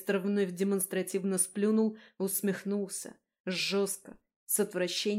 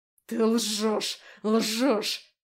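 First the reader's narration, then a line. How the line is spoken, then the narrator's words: Angry growl. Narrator (Russian): зарычал Андаим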